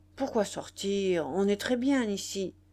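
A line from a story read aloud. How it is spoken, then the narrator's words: Grumpy reply. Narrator (French): Il répondit d'un ton grognon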